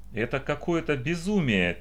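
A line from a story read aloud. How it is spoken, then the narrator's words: Quiet, to no one. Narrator (Russian): тихо, никому не обращаясь, произнесла Эвелита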